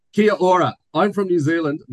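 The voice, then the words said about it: Put-on New Zealand accent. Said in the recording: “I'm going to do it in my New Zealand accent for, for the lols. Um, I can't really.”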